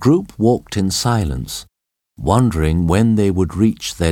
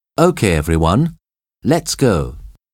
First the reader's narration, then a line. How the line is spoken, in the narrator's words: said John